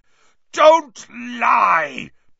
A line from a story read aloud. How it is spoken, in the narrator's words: bellowed Black